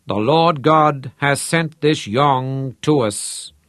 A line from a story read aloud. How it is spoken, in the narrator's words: Tromp intoned